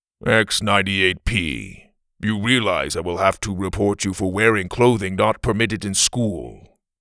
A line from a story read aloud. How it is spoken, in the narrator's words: teacher said in a monotone voice